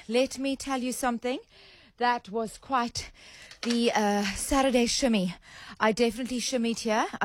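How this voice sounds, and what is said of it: Breathless, out of breath. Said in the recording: “out of breath ... I shimmied myself into a very nice little bit of a cardio session”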